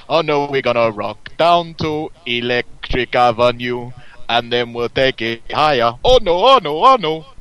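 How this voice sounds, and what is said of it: Singing in a put-on Jamaican accent. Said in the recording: “very hard to do that without doing the Jamaican accent.”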